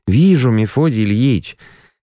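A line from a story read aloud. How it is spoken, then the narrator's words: Demonstrative sigh. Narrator (Russian): Я демонстративно вздохнул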